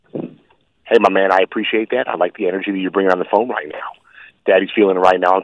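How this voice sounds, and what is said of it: Vince Vaughn impression. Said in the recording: “Can you do a little of Vince Vaughn, though, just because it is really good?”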